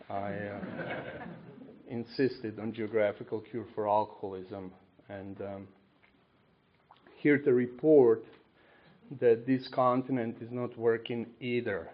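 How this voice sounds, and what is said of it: Speaks with a noticeable accent. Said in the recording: “Obviously, you hear my accent. I'm not from, Bucks County.”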